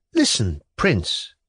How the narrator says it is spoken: repeated for the third time in a resolute voice

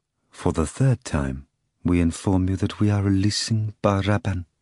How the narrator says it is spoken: Caiapha said quietly

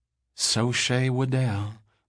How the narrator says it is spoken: the girl breathed

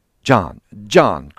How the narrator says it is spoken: cried Mr

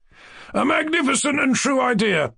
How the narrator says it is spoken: cried Lebediev

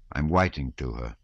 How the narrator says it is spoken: He looked gloomily and said

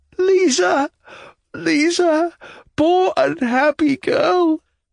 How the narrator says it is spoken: sobbed out

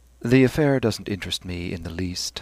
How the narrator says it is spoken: said Stephen wearily

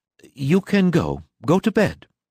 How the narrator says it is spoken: repeated his wife anxiously

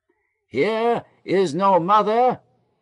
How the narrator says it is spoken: shouted down

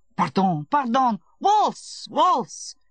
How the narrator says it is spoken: shouted Kozunsky from the other side of the room

